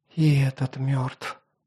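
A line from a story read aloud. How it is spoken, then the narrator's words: Whisper. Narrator (Russian): прошептала Инаиксия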